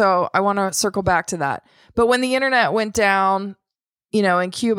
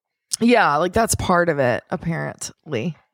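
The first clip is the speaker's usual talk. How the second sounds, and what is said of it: Sarcastic tone. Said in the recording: “hear the sarcasm in my voice”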